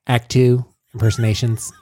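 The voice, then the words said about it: Imitates another person's voice. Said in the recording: “I like your Ira Glass.”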